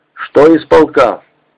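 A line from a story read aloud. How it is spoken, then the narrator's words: Plain. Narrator (Russian): спросил Волошин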